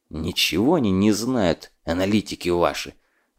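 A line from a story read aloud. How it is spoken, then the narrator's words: Angry hiss. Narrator (Russian): злобно зашипел встрявший разговор Фурманов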